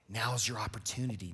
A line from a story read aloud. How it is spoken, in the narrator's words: David's men whispered to him